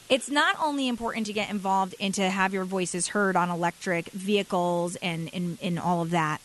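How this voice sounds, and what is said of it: Strained, hoarse voice. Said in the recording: “for some reason I'm losing my voice.”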